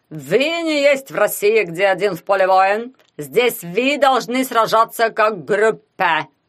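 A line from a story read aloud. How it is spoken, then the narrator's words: Spluttering angry shout. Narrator (Russian): кричал он, плюясь кислой слюной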